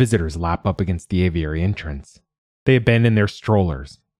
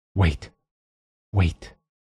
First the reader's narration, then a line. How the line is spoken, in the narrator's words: she whispers to Oliver